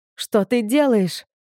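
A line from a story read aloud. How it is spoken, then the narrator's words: Screaming. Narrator (Russian): закричала я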